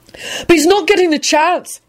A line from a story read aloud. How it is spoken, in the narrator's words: he hollered out defiantly